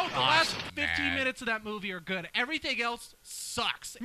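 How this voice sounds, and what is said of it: Usual voice. Nothing is said of it.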